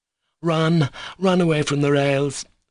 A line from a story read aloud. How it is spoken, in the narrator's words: the boys cried, breathless with terror